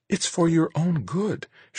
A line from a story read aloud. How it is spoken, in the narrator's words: she said, her voice almost pleading